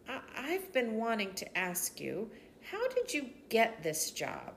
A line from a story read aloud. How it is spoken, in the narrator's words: She asked earnestly